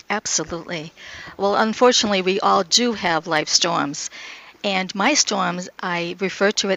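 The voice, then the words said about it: Northern New England accent. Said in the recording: “your voice, you've got a northern accent. ... New Hampshire.”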